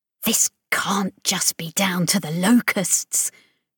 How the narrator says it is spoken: Chris hissed at the others

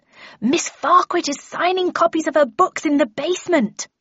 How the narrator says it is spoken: I took a deep breath and yelled

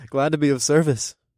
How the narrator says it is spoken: I chuckled

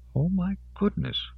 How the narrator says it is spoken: Odell murmured

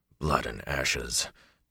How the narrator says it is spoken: Tom muttered

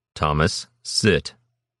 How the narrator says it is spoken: Lord Dunstan Harwick instructed, his voice flat, calm, even

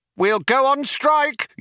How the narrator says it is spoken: yelled Vroom Fondle

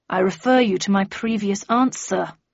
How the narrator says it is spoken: growled Flanker

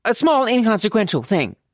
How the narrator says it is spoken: she added hastily

